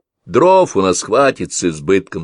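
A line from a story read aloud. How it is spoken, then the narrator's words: Plain. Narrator (Russian): сказал он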